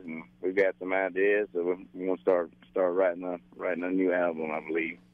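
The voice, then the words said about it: Southern US accent. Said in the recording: “did you get that accent from Tennessee or South Carolina? ... I think it's a combination of South Carolina and Alabama.”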